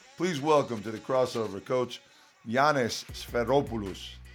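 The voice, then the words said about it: Put-on Greek accent. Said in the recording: “That was my best Greek accent right there.”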